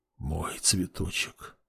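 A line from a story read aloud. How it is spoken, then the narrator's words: Whispered. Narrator (Russian): прошептал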